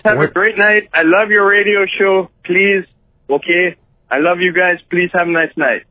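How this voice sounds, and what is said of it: Canadian accent from Winnipeg. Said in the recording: “Where was he? Winnipeg. ... Winnipeg, Canada. ... Oh my god, I love this accent.”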